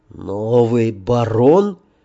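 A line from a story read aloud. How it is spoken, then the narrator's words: Hoarse question. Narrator (Russian): переспросил он хрипло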